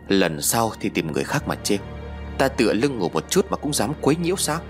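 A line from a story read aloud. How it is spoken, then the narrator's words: Harsh, gritted voice. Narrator (Vietnamese): ông ta gằn giọng nói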